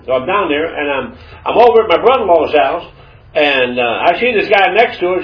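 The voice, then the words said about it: Georgia Southern accent. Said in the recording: “put me with my sister in Georgia. That's where my accent comes from ... I picked up that Georgia accent.”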